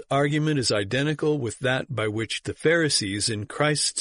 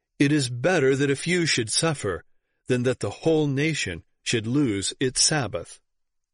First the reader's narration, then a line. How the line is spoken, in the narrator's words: McAllister coolly replied